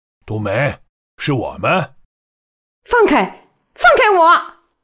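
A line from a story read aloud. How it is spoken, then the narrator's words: Wild savage shouting. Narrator (Chinese): 他野蛮地朝他们喊，似乎完全不认识他们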